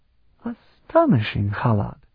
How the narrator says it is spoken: Patriarch Emban murmured dryly

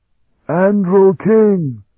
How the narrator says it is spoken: General Pemos shouted over the sound of the turbulent stream

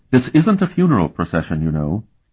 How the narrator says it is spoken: she said quite firmly

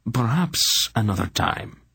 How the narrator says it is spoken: he murmured

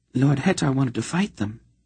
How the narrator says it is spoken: Synaedra whispered to Geryon

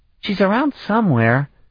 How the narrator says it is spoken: Danae replied sleepily

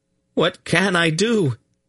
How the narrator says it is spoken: he cried brokenly

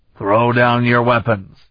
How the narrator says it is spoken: Ulath roared at the few survivors

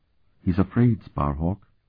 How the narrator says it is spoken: Sifrania whispered

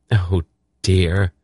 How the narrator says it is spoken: she sighed

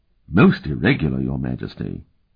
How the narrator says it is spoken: he murmured

